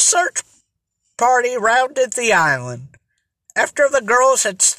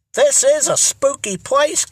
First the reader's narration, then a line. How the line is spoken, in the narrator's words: commented Lola, looking around her uneasily